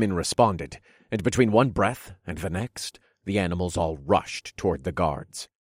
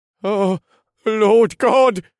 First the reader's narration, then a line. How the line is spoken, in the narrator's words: A guard with deep blonde hair gasped as he looked around in sheer panic